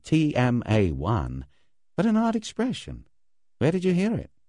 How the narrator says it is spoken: He said calmly

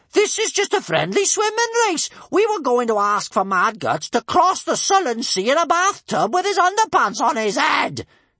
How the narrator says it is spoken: yelled Bertha indignantly

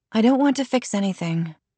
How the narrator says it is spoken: Mia replied gloomily

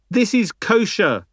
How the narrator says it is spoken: he shouted

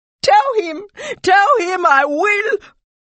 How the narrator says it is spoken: sobbing

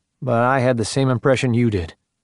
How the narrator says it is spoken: Mark said

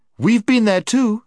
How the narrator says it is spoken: snapped Jill

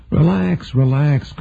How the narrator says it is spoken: Carmichael said in his most soothing, uninflected voice

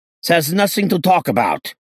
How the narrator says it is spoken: he shouted angrily

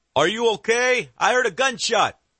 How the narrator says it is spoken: one of the guards yells from across the yard

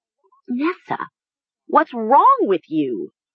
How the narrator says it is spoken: Mara cried

